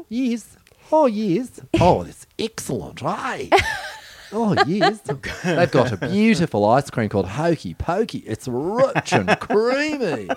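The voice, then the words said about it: Put-on New Zealand accent. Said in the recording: “can you do a New Zealand accent?”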